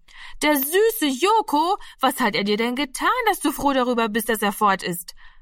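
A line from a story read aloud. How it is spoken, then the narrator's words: Called out. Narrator (German): rief Martina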